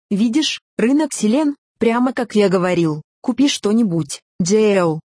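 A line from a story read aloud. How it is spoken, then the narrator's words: Plain. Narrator (Russian): сказал его друг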